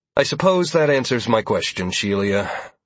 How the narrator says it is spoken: I said with a frustrated sigh

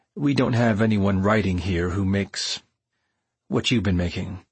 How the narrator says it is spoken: explained dryly

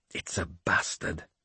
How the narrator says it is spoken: he said quietly

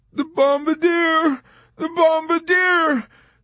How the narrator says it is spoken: Dobbs cried

